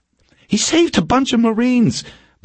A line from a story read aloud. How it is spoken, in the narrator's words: Borkin said urgently